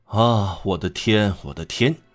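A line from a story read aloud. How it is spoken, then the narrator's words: Sighing woman. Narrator (Chinese): 罗大妈叹气说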